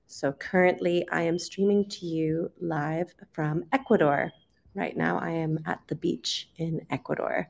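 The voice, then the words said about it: Canadian English accent. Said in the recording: “I'm originally from Canada, so today we will be listening to a Canadian accent.”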